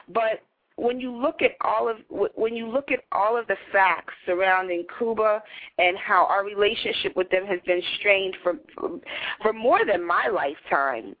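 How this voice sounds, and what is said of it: New York accent. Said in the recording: “I'm a New Yorker with our accent.”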